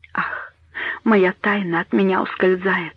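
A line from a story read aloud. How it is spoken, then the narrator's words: Whispered. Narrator (Russian): прошептала она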